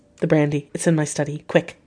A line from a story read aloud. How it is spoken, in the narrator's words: I called quietly to Quincy